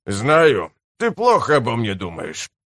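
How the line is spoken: Grumbling. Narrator (Russian): проворчал Пенни-Ройл

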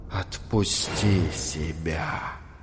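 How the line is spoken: Insinuating whisper. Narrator (Russian): вкрадчиво шепнула темнота

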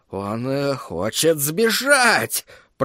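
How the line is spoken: Muttering. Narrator (Russian): пробормотал чародей

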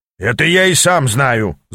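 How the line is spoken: Growling. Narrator (Russian): зарычал Аз

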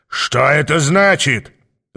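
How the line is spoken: Growled. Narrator (Russian): зарычал он на подступающих людей

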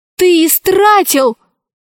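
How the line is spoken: Shouting. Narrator (Russian): закричала Алиса

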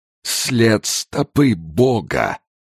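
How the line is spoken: Solemn old priest. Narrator (Russian): торжественно провозгласил старый жрец

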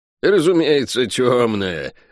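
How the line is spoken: Laughing. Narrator (Russian): рассмеялась она

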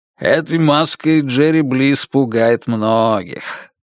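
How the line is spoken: Deep bass voice. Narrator (Russian): пробасил Кеннеди

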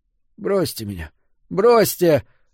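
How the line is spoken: Moaning. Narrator (Russian): застонал Фрид

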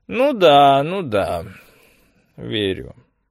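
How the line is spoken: Drawl. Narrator (Russian): протянул Цагине

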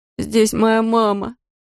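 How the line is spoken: Whimper. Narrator (Russian): заскулил Эдди Рейд

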